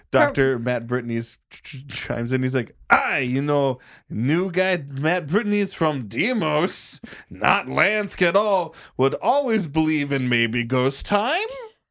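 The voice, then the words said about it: Put-on accent, still improving. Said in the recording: “Your accent is getting better, but we got to work on the, like, you're just adding too many words.”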